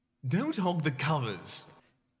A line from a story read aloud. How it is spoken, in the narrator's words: She snaps